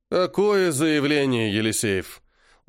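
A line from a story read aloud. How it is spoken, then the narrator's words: Tired, curt. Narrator (Russian): Устало бросил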